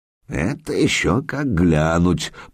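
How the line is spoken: Mutter. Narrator (Russian): пробормотал Ладовлас

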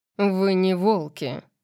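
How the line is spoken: Contemptuous growl. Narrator (Russian): пренебрежительно прорычал он

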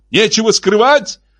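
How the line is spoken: Yelling. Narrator (Russian): завопил Марк

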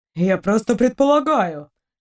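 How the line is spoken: Offended. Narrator (Russian): обиженно скривился Эдериец

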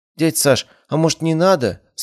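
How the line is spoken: Trembling voice. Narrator (Russian): спросила она дрожащим голосом

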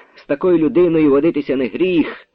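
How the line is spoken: Colonel, joyfully excited. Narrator (Ukrainian): говорив радісно збуджений полковник

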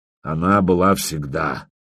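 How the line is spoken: Grim reply, high priest. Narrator (Russian): мрачно ответил главный жрец

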